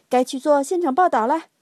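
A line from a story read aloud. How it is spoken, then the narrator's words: Shouting. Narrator (Chinese): 卷毛老师喊道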